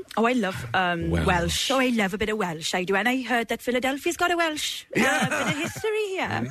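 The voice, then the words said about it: British accent with slight Midlands twang. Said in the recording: “UK accent for both of us. got a slight Midlands twang... I'd say I'm Midlands RP.”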